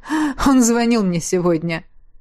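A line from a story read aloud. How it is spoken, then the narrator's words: Said after laughing. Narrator (Russian): сказал, отсмеявшись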